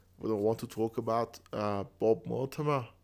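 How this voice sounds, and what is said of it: Put-on accent. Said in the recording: “I don't know why I did that accent.”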